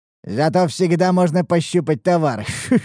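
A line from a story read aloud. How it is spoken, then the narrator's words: Nasty laughing. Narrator (Russian): Засмеялся собеседник мерзким смехом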